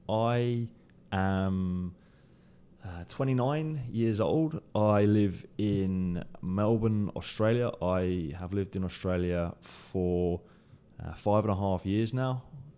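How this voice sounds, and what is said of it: British accent. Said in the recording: “May tell from the accent, originally from the UK.”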